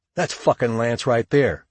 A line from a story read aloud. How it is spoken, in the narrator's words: Shug exclaimed